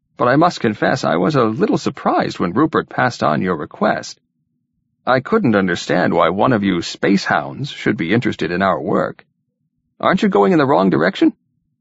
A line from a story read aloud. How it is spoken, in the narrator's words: He gave a little chuckle of amusement